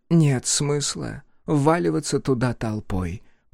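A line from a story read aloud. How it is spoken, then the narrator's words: Whisper. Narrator (Russian): прошептала Сота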